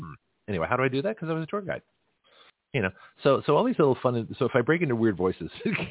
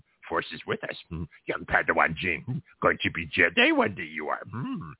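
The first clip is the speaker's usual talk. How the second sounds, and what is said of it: Yoda-style character voice. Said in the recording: “How can I do Yoda impressions?”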